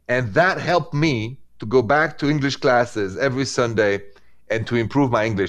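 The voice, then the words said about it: Non-native accent in English. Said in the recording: “somebody with an accent in America”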